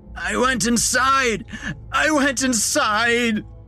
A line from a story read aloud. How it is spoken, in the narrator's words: the figure screamed